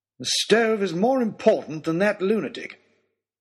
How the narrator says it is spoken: snapped back

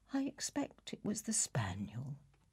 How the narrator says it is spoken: said the niece calmly

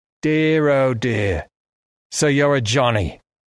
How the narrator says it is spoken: he said, in a suddenly broad Australian accent

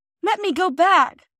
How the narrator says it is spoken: cried Phyllis, struggling to get away

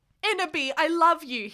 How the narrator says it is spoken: he shouted sadly

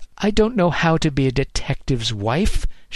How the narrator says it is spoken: she snapped

